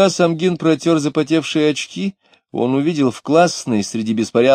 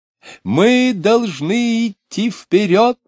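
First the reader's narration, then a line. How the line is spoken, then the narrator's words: Shouting with strange stress. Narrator (Russian): кричал он, странно акцентируя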